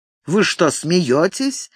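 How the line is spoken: Mocking tone. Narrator (Russian): насмешливо улыбнулся Ник

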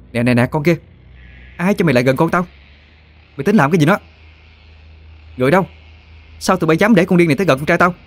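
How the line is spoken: Shrieking. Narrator (Vietnamese): cô ta đã hét toáng lên

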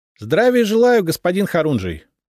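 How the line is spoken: Cheerful greeting. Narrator (Russian): бодро поприветствовал он

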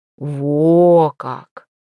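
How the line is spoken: Snort. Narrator (Russian): Святослав хмыкнул

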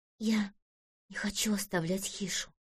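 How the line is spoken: Whisper. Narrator (Russian): прошептала Ириска

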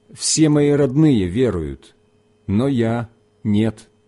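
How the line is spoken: Plain. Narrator (Russian): ответил этот человек

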